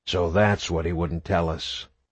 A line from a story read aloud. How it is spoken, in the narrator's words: muttered to himself